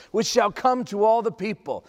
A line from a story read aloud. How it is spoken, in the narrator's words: cried the angel